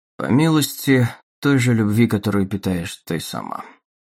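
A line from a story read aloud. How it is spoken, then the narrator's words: Calm. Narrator (Russian): спокойно ответил он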